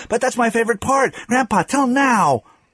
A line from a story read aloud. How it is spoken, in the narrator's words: Jason cried